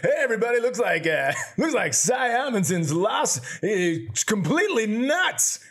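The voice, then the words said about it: Radio announcer voice. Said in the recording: “let me do my radio voice.”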